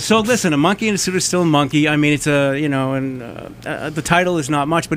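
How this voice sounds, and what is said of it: Boston accent. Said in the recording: “I have a Boston accent”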